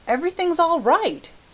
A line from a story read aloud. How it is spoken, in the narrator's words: he shouted jubilantly